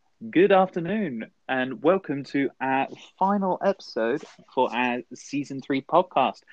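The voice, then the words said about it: Formal teacherly welcoming delivery. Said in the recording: “You sound like a geography teacher, like welcoming a class at the start of the year ... You you're like local radio DJ”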